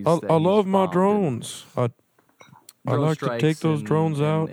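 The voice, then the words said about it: Imitates another person's voice. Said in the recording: “my Obama impression”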